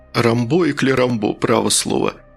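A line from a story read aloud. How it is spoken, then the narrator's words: Short guffaw. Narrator (Russian): министр хохотнул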